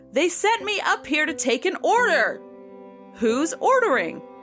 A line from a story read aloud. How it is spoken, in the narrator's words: A guy in a sling came up with a pad of paper and yelled to all of the patrons of the pool